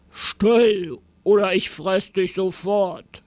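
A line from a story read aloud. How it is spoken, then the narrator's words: Growling monster. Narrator (German): knurrte das Monster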